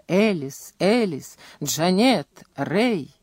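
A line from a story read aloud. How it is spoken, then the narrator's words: Muttering, occasional cries. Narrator (Russian): бормотал про себя, изредка вскрикивая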